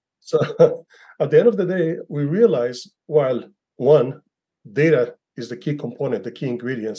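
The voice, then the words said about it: Israeli-accented English. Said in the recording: “with an Israeli accent, as I do”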